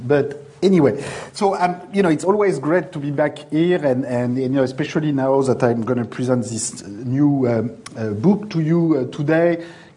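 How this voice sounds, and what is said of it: French-accented English. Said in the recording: “my English is going to sound a lot like French ... improve my accent.”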